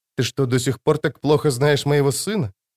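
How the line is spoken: Whisper. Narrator (Russian): шепнула Джессика

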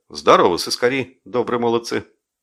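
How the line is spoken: Cheerful. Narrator (Russian): сказал бодро

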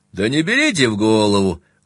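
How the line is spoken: Laughing heartily. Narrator (Russian): Он расхохотался, он все еще смеялся

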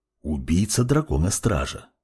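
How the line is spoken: Whisper. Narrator (Russian): прошептал темный маг

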